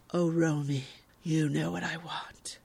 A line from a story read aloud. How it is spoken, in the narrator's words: responds huskily